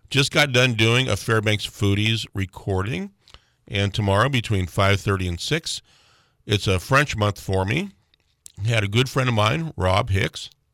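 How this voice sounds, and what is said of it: Rough, hoarse voice. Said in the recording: “My voice is a little bit ratty this morning.”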